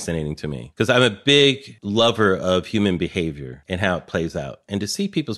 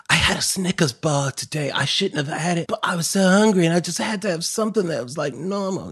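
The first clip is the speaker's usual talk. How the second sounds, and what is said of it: Made-up unfamiliar accent. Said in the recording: “What accent is that? ... I have no idea. I just made something up. ... I've never heard that accent before. ... I have crazy accents.”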